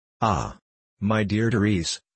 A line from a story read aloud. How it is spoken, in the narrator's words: said she